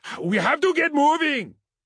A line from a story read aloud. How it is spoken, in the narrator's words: Ketai shouted